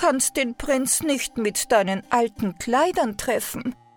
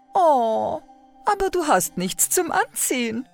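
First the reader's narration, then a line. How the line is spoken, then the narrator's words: Older stepsister laughing. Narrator (German): lachte die ältere Stiefschwester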